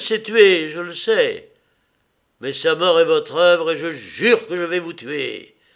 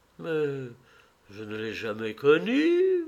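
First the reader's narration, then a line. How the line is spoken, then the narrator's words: Murmured. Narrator (French): murmura-t-il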